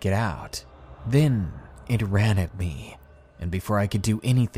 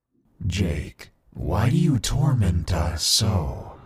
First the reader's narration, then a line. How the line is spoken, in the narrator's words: It said in that horrible, twisted, sick voice